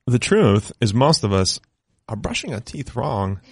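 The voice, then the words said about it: Christopher Walken impression. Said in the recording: “you have a very good impression ... here is Christopher Walken telling you why Quip is fantastic”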